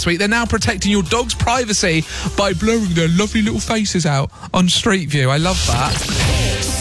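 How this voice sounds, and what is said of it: Doting dog-owner voice. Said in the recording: “dog dad voice”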